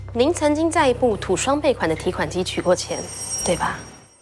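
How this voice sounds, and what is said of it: Strange unfamiliar accent. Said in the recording (Chinese): “你的口音好奇怪啊”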